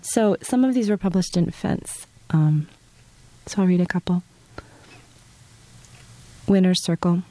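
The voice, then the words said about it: Congested, stuffy cold-affected voice. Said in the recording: “I have a little bit of a cold, if I'm sure you can tell ... I just sound bad.”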